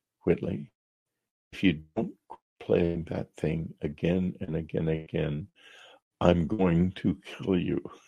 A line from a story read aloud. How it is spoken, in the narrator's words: she came to me in the night and whispered to me in my bed